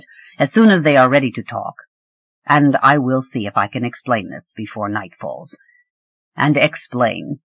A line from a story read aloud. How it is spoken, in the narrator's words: he added grimly